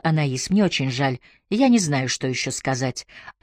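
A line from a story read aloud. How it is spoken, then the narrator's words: Said quietly. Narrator (Russian): Она тихо сказала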